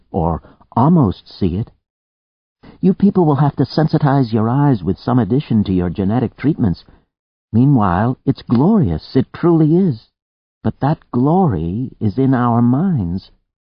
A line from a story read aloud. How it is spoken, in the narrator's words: Zoe said happily